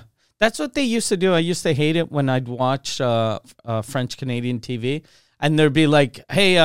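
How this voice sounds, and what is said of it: Usual voice. Nothing is said of it.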